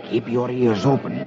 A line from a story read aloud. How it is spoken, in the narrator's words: Lafitte whispers to Dick